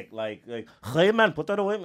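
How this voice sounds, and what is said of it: Made-up Eastern European accent. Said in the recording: “You did just make up an accent out of nowhere. ... It was east of Europe though”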